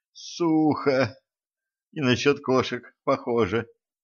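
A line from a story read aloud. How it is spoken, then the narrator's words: Moaning. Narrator (Russian): простонала Кэтран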